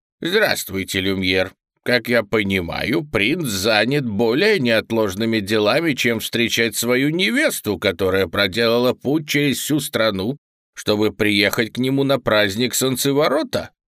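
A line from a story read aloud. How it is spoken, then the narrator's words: Grumbling nanny. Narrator (Russian): проворчала няня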